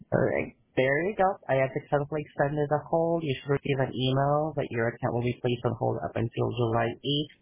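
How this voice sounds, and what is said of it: Filipino English accent. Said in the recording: “I'm calling from the Philippines ... You do with my accent, though. Don't worry, I'm working on it. ... Yeah, a little bit.”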